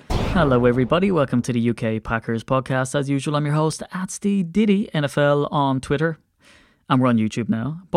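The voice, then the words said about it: Excited, energetic delivery. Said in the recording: “Can you hear the excitement in my voice?”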